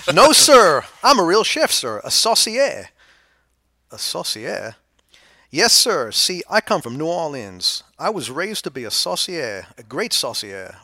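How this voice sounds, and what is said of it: Attempted New Orleans American accent. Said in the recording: “I, I can't do these accents very well because I don't remember, so I'm just going to do it in the best American that I can ... Willard's from New Orleans ... I'm not going to butcher that accent”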